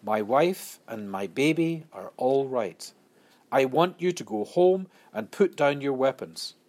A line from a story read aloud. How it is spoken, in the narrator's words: In a calm voice, he said